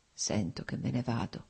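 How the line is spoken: Slow, labored, precise murmur. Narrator (Italian): mormorò Nikolai, articolando lentamente le parole, con fatica ma con straordinaria precisione

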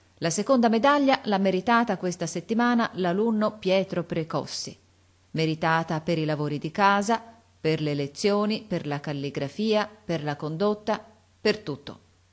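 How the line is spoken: Loud announcement. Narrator (Italian): Il sovrintendente disse a voce alta

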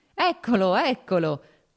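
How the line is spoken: Laughing. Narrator (Italian): disse ridendo Serpuchovskoj

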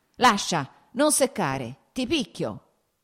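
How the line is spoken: Shouting. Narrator (Italian): gridò

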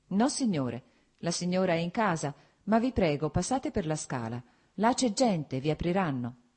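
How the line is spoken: Plain reply. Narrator (Italian): rispose il giardiniere

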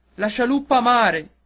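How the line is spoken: Captain shouting. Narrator (Italian): gridò il capitano

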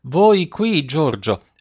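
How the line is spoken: Amazed tone. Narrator (Italian): mio padre che dice in tono di meraviglia

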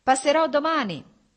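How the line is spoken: Shouting. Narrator (Italian): gli gridò Stepan Arkadich

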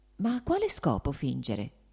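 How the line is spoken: Quiet. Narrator (Italian): disse piano Varinka

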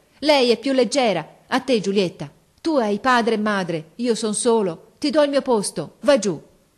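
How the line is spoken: Changed voice, shouting. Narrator (Italian): Mario, con una voce che non parea più la sua, gridò

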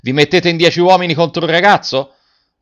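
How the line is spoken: Shouted. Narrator (Italian): Garrone gridando

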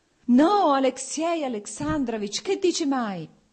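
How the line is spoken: Pained shout. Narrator (Italian): gridò Oblonsky e la sofferenza si espresse sul suo viso

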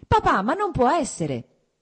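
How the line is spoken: Shouted. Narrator (Italian): gridò Kitty

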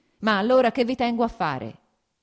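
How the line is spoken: Shouted. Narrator (Italian): gridò

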